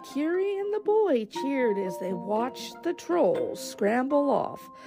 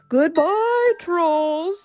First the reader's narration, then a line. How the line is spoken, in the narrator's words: he shouted